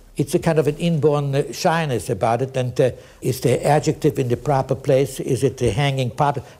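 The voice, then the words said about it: Non-native accent in English. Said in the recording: “You never lose the accent, and I never trust my English.”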